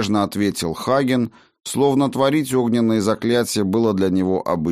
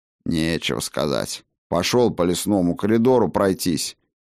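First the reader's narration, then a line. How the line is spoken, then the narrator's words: Grumbling. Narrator (Russian): в свою очередь заворчал Бран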